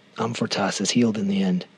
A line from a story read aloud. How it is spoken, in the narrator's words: Owen said